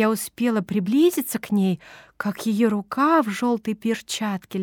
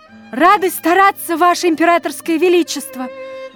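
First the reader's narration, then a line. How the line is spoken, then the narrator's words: Ringing cheerful group shout. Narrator (Russian): Звонко и весело, не уступая в искусстве солдатам, дружно крикнули мы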